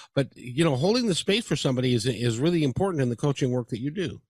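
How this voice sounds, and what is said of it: Usual voice. Nothing is said of it.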